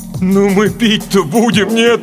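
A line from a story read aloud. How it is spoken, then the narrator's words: Moaning. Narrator (Russian): простонал Валерка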